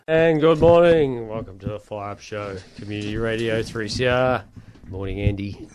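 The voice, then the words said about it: Put-on game show host voice. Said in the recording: “What are you putting on a voice? ... what are you putting on this bullshit voice? ... if the next life I'm going to be a game show host”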